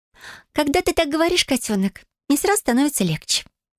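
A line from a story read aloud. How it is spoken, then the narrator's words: Concluding. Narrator (Russian): заключила она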